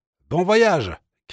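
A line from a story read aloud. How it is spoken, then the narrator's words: Shouted. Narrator (French): cria-t-il encore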